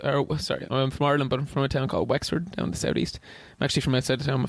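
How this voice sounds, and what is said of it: Irish accent. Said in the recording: “your accent ... I am from Ireland. I'm from Wexford”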